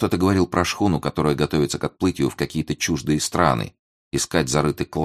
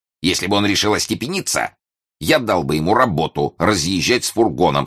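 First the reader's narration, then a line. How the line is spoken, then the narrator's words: Unfriendly tone. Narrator (Russian): сказал ее муж далеко недоброжелательным голосом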